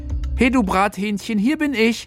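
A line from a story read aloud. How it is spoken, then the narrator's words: Exuberant shout. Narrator (German): Felix rief übermütig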